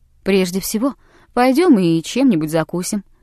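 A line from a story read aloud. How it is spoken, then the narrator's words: Cheerful. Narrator (Russian): сказал он весело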